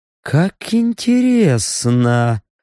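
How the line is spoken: Muttering. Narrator (Russian): пробормотал эльф

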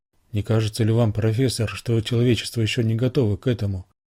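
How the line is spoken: Quiet question. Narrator (Russian): тихо спросила Рора

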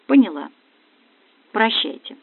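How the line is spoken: Quiet, hopeless. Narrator (Russian): Ощущая полную безнадежность, я тихо сказала

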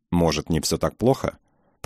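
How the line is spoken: Grateful, pitying mutter. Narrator (Russian): бормотали что-то благодарное и жалостное

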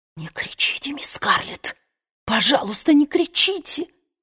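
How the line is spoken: Breaking whisper. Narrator (Russian): зашептала срывающимся голосом

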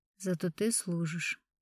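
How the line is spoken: Quiet. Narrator (Russian): негромко сказал Суворин

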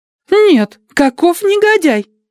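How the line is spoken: Young woman exclaiming. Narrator (Russian): воскликнула молоденькая Адати

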